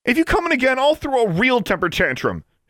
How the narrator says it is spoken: yelled

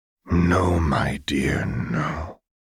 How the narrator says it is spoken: said softly

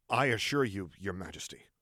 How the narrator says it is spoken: Luke responded as icily as he could without it being treason

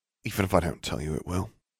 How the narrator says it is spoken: muttered

